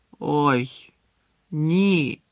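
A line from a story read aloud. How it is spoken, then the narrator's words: Groaned. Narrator (Ukrainian): простогнав Гаррі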